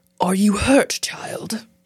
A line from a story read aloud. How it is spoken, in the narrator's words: He asked in a warm, fatherly voice